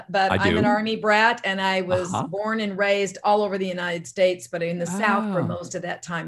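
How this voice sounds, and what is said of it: Louisiana Southern accent. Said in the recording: “What's the accent? ... You hear Louisiana”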